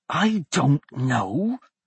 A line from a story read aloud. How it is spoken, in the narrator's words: Blaze hissed